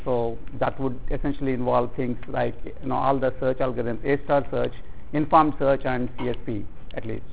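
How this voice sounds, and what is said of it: Indian English accent. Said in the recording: “Although you probably can't tell from my flawless East Coast accent, I'm actually from India.”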